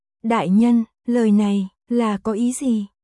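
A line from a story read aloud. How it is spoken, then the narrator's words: Trembling tearful question. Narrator (Vietnamese): hai mắt đỏ hoe, giọng run rẩy hỏi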